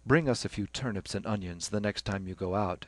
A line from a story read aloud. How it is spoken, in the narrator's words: said Stephen dryly